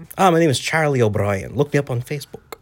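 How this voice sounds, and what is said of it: Put-on Irish accent. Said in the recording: “What's your accent from? ... Oh, I'm from Ireland. I'm actually from Swords, Dublin”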